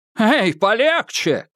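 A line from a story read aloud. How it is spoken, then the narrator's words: Shouted. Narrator (Russian): крикнул Гонзага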